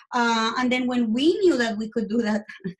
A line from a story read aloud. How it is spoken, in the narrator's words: my husband screamed at the doctor